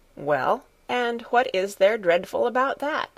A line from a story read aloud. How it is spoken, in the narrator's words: said Grandmamma